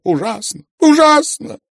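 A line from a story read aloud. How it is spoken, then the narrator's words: Tearful repeating. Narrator (Russian): твердил он сквозь слезы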